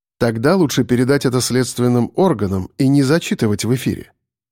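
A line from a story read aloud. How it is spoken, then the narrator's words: Calm, stern, firm. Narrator (Russian): сказал я спокойно, но тем строгим тоном, который не терпит обсуждений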